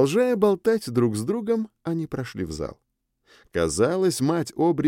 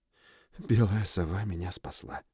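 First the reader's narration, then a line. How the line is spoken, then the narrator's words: Relieved exhale. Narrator (Russian): выдохнул с облегчением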